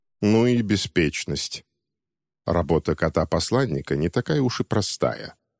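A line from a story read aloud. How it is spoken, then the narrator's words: Grumbling. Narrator (Russian): проворчал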